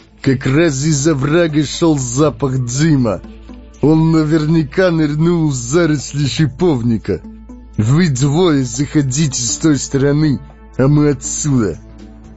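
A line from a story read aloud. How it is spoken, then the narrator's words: Loud. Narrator (Russian): кто-то громко сказал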